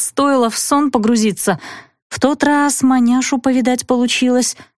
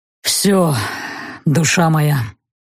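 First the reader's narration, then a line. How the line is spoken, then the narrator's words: Hoarse tired male voice. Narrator (Russian): Хриплый мужской голос звучал устало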